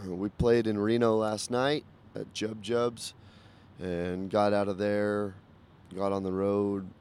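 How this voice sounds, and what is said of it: Tired-sounding voice. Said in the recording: “I am tired. I'm sure you can probably hear that in my voice.”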